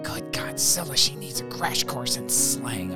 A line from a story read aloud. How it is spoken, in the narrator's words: I whispered to myself